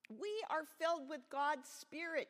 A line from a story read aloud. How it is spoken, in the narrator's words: shouted Matthew